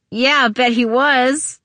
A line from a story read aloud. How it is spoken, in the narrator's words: Tabby said on a giggle